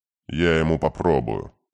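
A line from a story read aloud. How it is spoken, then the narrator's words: Gloomy promise. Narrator (Russian): мрачно пообещал Катер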